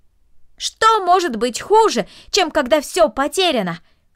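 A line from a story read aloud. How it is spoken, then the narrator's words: Shouted after someone. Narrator (Russian): крикнул ей вслед Дино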